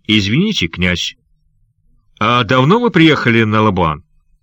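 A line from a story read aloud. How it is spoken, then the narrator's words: Sudden sharp question. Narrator (Russian): Внезапно, обращаясь к Сандакану, он резко спросил его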